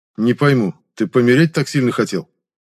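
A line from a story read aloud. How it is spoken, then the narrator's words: Cold question. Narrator (Russian): Холодно осведомился я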